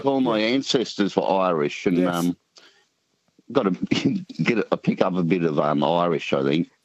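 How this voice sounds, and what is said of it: Country Australian accent, sing-song. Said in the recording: “What kind of Aussie accent is it? ... country New South Wales ... a bit of a sing-song charm to it”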